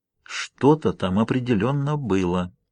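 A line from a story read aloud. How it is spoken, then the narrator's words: Suddenly quiet. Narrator (Russian): говорит неожиданно тихо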